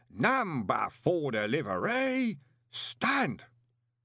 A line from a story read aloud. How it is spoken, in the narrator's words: with an air of evil satisfaction and took a deep breath before roaring